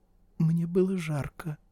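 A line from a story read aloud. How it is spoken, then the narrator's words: Barely audible squeak. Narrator (Russian): пропищала еле слышно Клэр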